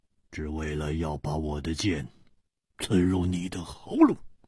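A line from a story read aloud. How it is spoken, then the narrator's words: Cold. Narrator (Chinese): 一点红冷冷地说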